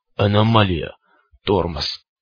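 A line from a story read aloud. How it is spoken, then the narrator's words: Strained hoarse wheeze, cyclops. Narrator (Russian): прохрипел циклоп, с усилием ворочая нижней челюстью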